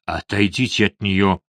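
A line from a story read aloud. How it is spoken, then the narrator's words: Hoarse rasp. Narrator (Russian): прохрипел Лаксфорд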